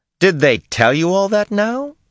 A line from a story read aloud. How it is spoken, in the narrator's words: said mockingly